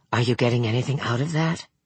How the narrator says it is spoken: Hutter leaned forward, tapped his shoulder, whispered

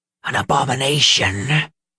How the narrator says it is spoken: she hissed

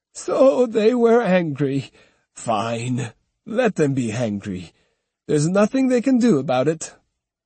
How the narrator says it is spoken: He laughed and said

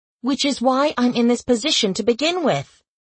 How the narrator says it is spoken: I snapped back

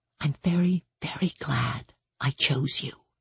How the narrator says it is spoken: she whispered

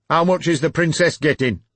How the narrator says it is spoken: the beast snapped

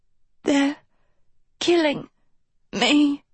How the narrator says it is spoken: Sophie rasped weakly

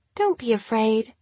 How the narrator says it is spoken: she said in a sweet voice, like the subtle pressure of a razor on Gemma's skin

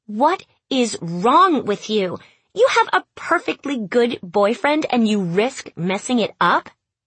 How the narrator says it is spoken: yelled

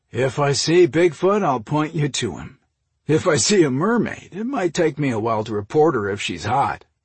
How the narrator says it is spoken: Ross chuckled

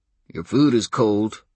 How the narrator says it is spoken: growled Daryl

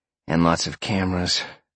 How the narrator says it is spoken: Sean sighed

